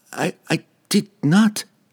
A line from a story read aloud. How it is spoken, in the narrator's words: Regis stammered from across the chasm